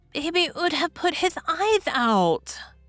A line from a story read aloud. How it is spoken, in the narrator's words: lisped the little girl